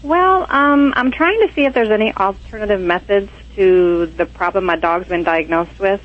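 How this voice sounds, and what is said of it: Southern US accent. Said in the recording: “I heard that accent. I love that accent. I'm a sucker for Southern accents”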